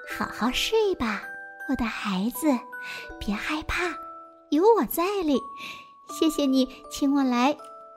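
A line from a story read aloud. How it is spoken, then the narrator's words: Soft gentle whisper. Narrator (Chinese): 一种柔和的声音在轻声地说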